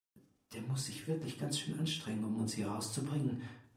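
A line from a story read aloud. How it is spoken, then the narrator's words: Whispered. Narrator (German): flüsterte Lega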